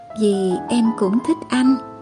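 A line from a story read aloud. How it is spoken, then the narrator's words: Whisper in ear. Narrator (Vietnamese): Tôi ghé sát vào tai anh thì thầm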